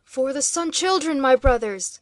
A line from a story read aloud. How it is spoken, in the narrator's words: cried, his voice rising even above that awful tumult and turmoil